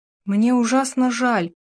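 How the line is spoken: Forced out. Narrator (Russian): выдавила наконец Келли

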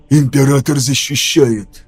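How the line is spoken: Whisper. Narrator (Russian): прошептал я

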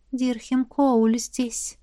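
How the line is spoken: Countess whispering in ear. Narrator (Russian): шепнула графиня на ухо

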